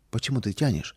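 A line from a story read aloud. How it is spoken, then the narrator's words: Quiet question. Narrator (Russian): тихо спросила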